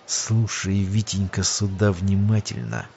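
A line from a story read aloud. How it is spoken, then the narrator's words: Hushed hiss. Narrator (Russian): Придвинувшись к нему так, чтобы быки не смогли расслышать, зашипел Сергей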